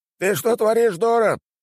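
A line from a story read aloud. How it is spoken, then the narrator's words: Tavern patron shouting. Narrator (Russian): кричал посетитель таверны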